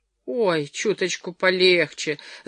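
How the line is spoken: Pained moan. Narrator (Russian): застонала жертва, когда Джерри начал разминать больные позвонки

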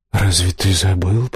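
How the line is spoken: Whisper. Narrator (Russian): прошептал король теней

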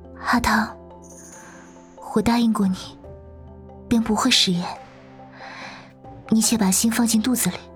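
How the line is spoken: Soft, tender voice. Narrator (Chinese): 谢之真怔了怔 柔声道

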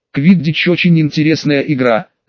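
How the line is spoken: Thoughtful. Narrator (Russian): задумчиво произнесла Мария

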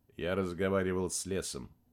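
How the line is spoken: Even, level voice. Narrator (Russian): повторил Максим ровным голосом

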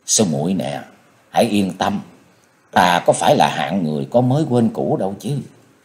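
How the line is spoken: Moved, gentle comforting. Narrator (Vietnamese): Chàng rất cảm động, khẽ an ủi rằng

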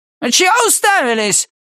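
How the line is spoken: Barked. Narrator (Russian): рявкнул он

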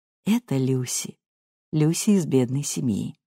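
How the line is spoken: Quiet. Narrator (Russian): Кэтрин тихо говорила

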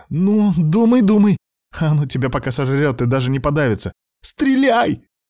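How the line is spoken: Shouting the last word. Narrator (Russian): выкрикнула она последнее слово

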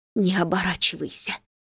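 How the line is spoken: Mother through gritted teeth. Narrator (Russian): велит мама сквозь зубы

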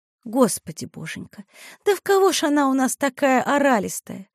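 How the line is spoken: Soft tender lament. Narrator (Russian): тихонько и ласково сетовала Евгения

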